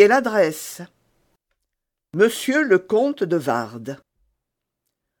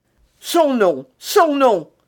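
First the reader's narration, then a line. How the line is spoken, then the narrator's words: Exclaiming. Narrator (French): s'écria D'Artagnan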